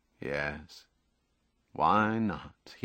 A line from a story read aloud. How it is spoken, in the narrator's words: thought